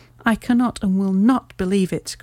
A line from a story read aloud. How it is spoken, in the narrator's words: cried the banker with an ashen face